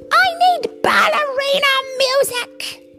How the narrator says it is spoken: Muffin screams

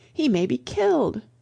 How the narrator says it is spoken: cried the old man

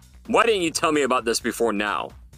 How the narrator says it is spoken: Jefferson roared

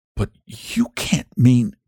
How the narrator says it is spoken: gasped Rainsford

